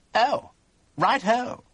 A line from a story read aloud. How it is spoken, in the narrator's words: he said stiffly